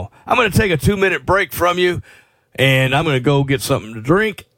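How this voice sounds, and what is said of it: Slightly rough voice. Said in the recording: “my voice sounds a little rough to me”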